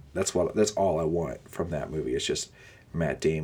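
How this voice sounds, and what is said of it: Usual voice. Nothing is said of it.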